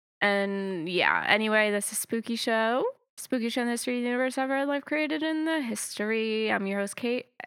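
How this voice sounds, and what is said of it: Congested, slightly sick-sounding voice. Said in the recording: “I've been a little under the weather, so if I sound a little congested, that is why.”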